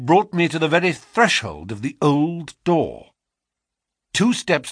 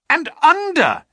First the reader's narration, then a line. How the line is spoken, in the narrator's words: he cried